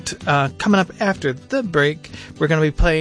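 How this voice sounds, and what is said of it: Usual voice. Nothing is said of it.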